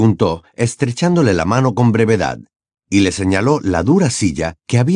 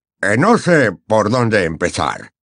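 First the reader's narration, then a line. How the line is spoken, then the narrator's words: Muttering. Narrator (Spanish): masculló Fudge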